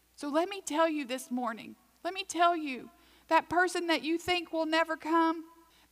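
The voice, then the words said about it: Southwest Virginia accent. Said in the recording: “where this accent came from, when we go home to Dublin, Virginia, Southwest Virginia”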